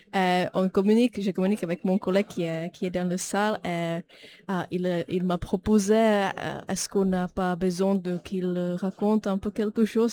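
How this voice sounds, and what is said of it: Non-native French accent. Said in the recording (French): “moi, je ne viens pas de la France, comme vous avez pu savoir par rapport à mon accent”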